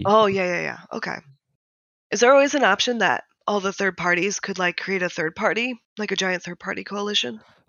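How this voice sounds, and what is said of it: Hoarse, congested sore-throat voice. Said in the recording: “I have a cold, so it's like been murdering my throat.”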